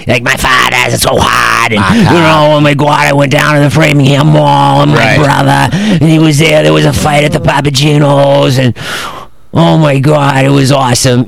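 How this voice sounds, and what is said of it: Mocking exaggerated regional accent. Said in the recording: “I just thought that I got rid of the accent. ... why is everyone talking like that? Sounds stupid.”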